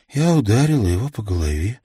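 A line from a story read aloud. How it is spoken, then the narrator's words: Sighing. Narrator (Russian): вздохнула Ханна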